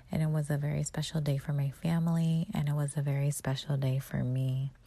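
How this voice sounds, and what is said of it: Tired, low, quiet voice. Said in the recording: “I am tired. So my voice is a little bit low because everyone is sleeping”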